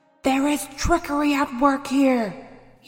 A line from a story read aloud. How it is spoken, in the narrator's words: screamed